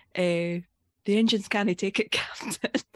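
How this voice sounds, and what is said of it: Scottish accent, Scotty impression. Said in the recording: “I like to get myself into my own accent ... You need a key word for your own accent”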